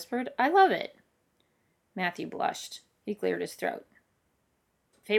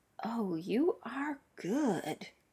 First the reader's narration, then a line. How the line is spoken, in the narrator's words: he whispered